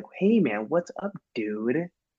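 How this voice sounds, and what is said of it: Exaggerated put-on American dude accent. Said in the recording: “my American accent ... No one talks like this.”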